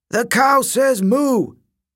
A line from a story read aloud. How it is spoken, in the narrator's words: kids howled